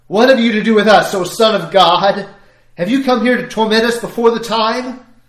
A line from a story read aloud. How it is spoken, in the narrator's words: they cried out